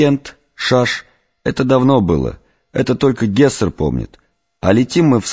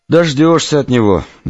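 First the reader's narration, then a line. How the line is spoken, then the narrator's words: Feigned sigh. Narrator (Russian): наигранно вздохнул Семен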